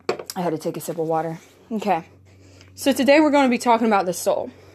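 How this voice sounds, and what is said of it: Out of breath, panting speech. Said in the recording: “Forgive me if I seem out of breath. I just came from a run.”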